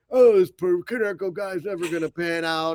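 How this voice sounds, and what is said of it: Imitates another person's voice. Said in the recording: “your David Ross impression”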